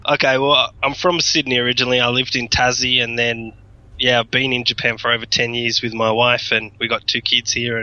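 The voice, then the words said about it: Australian accent. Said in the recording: “your accent isn't Japanese ... With a side of Australian.”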